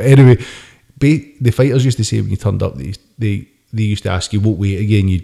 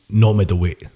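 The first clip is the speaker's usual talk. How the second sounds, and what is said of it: Put-on Japanese accent. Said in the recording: “I was going to do a Japanese accent there ... My best Japanese accent will sound absolutely horrendous”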